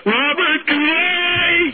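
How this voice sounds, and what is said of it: Yelling into a phone. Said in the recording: “you're yelling into the phone”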